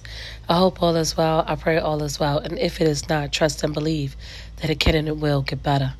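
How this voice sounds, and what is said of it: Strained voice still recovering. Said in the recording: “my voice is coming back, y'all. I'm still struggling”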